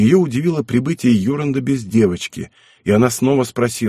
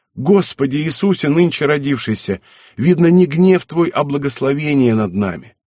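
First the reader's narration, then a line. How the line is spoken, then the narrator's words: Joyful exclamation. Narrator (Russian): глаза ее засияли радостью, и она воскликнула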